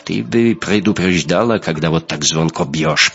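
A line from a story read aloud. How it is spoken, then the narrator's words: Grumbled. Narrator (Russian): пробурчал он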